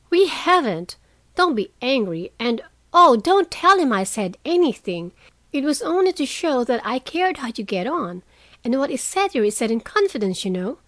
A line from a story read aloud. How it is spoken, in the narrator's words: cried Meg, much alarmed at the thought of what might follow from her careless speech